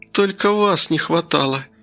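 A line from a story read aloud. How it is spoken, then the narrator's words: Creaky rasp. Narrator (Russian): С гримасой, обнажающей острые зубы, проскрипела Кира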